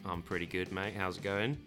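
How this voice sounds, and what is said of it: Slight Australian accent. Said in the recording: “There's that little bit of an Australian accent.”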